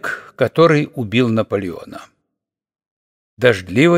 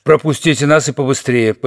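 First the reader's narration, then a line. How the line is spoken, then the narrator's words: Commanding man's voice. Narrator (Russian): повелительным тоном произнес один из 3, тот, что был в треуголке с плюмажем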